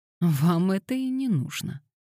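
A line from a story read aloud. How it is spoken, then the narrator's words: Sighing. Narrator (Russian): Пандора вздохнула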